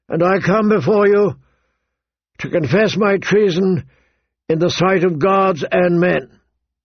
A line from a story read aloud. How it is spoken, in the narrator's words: he said more loudly, his voice carrying across the plaza